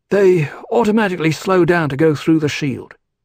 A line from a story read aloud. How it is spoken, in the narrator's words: Duncan explained in his young old voice